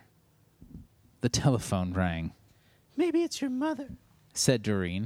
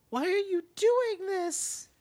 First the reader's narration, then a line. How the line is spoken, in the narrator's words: Doreen screamed